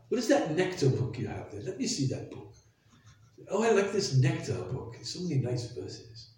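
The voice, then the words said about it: Cultured British accent. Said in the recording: “in his very cultured British accent”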